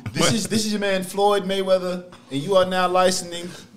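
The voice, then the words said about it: Floyd Mayweather impression, halting reading. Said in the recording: “do an impression... It sounds like a nigga that can't read trying to read on the radio”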